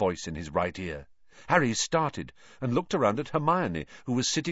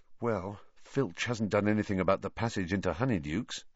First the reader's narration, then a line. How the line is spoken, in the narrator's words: Harry said, even more quietly